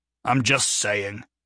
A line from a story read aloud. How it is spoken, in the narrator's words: Jonah said, sullenly